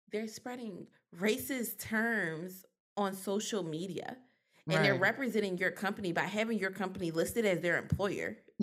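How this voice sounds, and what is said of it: Put-on polished college girl voice. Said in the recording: “I turned my college girl voice on.”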